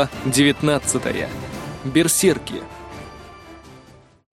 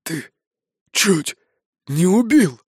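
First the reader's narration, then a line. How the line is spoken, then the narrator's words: Strained forced words. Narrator (Russian): выдавил он из себя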